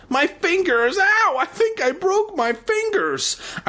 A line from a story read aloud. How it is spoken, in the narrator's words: With a howl of pain, she shrieked